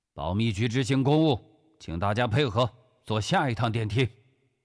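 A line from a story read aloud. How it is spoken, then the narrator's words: Loud. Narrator (Chinese): 古正文大声说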